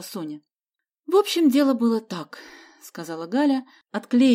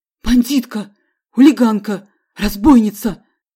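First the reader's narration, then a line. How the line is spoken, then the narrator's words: Shouted in a wary whisper. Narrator (Russian): закричал Фикусов уже шепотом, опасливо косясь на Галю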